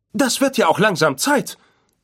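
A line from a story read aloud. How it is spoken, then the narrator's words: Called out. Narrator (German): rief C-3PO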